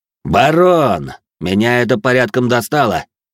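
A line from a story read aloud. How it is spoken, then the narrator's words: Loud, smirking. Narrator (Russian): Усмехнувшись, громко произнес мой противник, так, чтобы его все слышали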